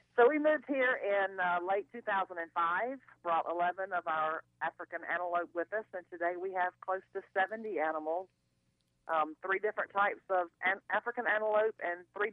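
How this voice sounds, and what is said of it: Mississippi Southern accent. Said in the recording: “moved from Mississippi ... that doesn't sound like a California accent there”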